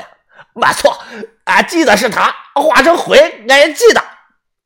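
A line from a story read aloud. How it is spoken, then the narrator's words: Excited loud old man. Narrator (Chinese): 老头神情激动 他大声地说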